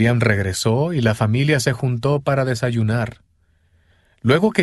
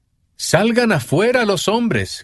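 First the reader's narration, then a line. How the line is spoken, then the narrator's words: Shout. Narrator (Spanish): gritó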